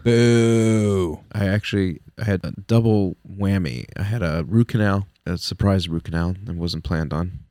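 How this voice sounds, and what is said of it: Sore-throated, congested voice. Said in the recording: “I might sound a little weird because I have a cold. ... a cold, a sore throat ... it kind of hurts right now”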